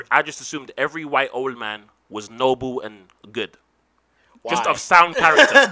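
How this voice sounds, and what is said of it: English accent. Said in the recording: “The English accent... there's English guys here speaking like this”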